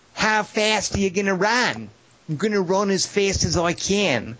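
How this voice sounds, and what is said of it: Put-on Australian accent. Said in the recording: “See, that was my Australian accent.”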